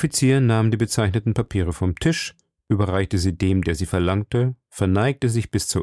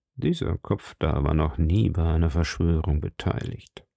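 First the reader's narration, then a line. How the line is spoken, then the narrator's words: Murmured. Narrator (German): murmelte er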